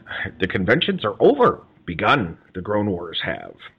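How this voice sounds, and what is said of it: Bad Yoda impression. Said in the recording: “bad Yoda impression”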